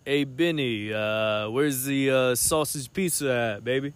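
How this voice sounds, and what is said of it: Put-on Italian accent. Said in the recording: “Italian accent ... As Italian as you can get ... Italian stallion voice”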